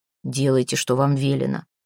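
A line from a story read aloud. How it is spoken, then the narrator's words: Muffled, shaken reply. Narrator (Russian): глухо отозвался Йовка, все еще чувствуя дрожь в ногах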